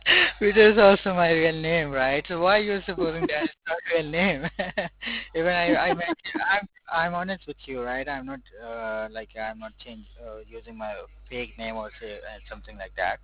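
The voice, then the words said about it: Non-American accented English. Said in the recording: “My accent is it's not an American... I'm Asian and South Africa, from South Africa. That's why my accent has changed.”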